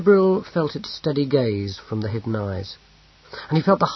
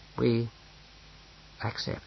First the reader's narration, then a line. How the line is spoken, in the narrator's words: said Bane gravely